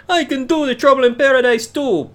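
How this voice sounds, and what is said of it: Put-on Jamaican accent. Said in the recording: “I don't know why I just said the Jamaican accent.”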